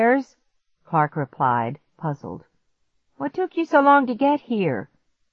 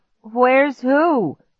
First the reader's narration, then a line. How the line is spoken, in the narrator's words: Clark stammered